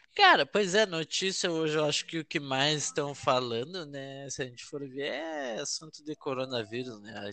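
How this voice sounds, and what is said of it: Gaúcho Brazilian Portuguese accent. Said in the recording (Portuguese): “o sotaque gaúcho ... gostoso”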